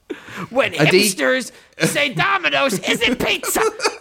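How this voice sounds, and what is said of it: Imitates another person's voice. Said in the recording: “that was the love child of Lewis Black and Gilbert Gottfried ... That's the best impression you've ever accidentally done.”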